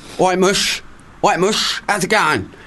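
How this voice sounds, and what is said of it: Portsmouth accent, Cockney-ish London sound. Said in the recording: “what is the typical Portsmouth accent? ... It's kind of Londonish. It's verging towards that, Cockneyish, but without the rhyming slang.”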